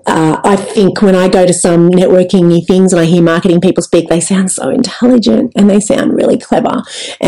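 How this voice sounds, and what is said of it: Broad Australian accent. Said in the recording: “I've got a broad Aussie accent”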